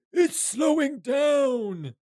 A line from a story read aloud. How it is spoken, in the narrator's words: Fella yells out